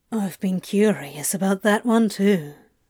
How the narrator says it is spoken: Crowley murmured into Aziraphale's hair

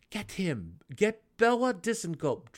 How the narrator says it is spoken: Drizzt pleaded

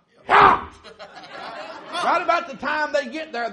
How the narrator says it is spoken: they shout

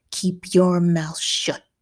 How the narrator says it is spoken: Dad growled

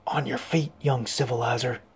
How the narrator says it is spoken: A voice at his ear, Rabbo's, whispered

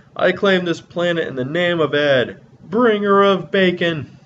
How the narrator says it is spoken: he yells

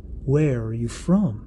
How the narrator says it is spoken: he asks

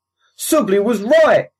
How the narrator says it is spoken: he hollered over the comm

